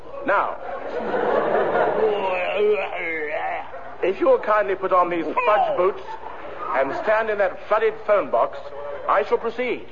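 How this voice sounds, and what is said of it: Exaggerated posh announcer voice. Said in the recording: “hark at all the old posh chat here ... It's all put on, you know ... talk posh”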